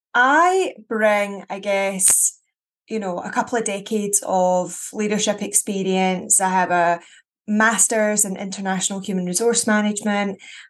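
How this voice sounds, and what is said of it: Scottish accent. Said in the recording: “a fabulous accent? ... very Scottish”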